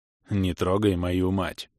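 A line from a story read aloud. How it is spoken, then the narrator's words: Grim beast. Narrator (Russian): Мрачно прищурился зверь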